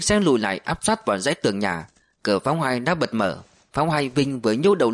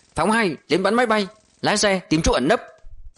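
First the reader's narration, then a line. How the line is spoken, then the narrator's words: Shout. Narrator (Vietnamese): Hướng hét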